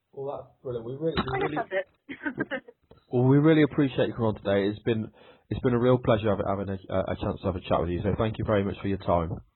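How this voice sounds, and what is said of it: Noticeable accent. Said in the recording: “I love your accent. It's awesome.”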